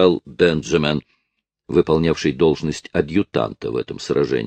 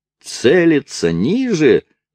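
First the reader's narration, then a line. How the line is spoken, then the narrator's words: Yell. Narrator (Russian): завопил Керби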